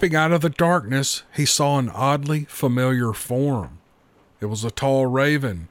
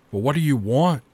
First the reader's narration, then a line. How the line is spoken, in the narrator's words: asked Gray Eagle, glancing around nervously